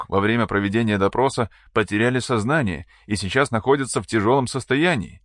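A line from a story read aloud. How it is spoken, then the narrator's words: Frightened report. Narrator (Russian): испуганно докладывает Ханнес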